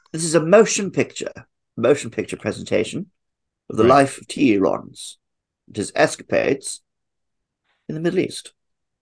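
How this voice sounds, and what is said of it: Peter O'Toole impression, posh accent. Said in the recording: “can you say film in your foul Tool O'Toole accent? ... You have to say it that way”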